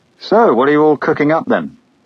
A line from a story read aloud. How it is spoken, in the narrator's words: said cheerfully